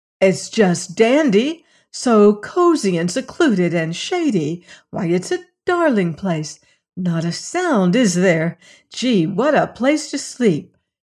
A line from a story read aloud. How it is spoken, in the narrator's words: uttering shrieks of rapture